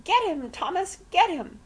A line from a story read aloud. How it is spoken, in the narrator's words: shrieking